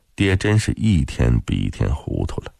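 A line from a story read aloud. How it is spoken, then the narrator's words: Sighing inner thought. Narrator (Chinese): 轻叹了一声，心想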